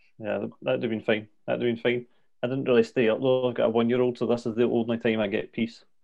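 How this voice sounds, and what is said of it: Scottish accent, toned down. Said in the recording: “speak Scottish ... I've dumbed down my accent so that it's a wee bit understandable ... It is very clear”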